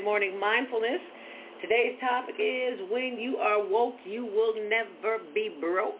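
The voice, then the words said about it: Slightly hoarse voice. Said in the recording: “I'm a little hoarse this morning from all the screaming”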